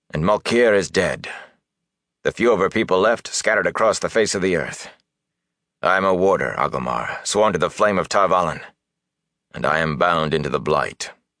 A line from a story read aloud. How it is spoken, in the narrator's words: Lan said harshly